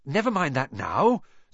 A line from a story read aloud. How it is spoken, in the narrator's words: said Harry, breathlessly